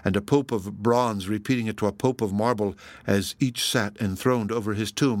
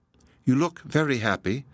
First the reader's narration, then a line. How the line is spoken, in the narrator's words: said she